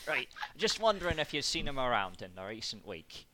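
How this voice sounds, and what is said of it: Put-on Yorkshire accent. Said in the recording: “Yorkshire. Yeah. ... Yorkshire. Pasty. Down to pub. Right, there's the accent.”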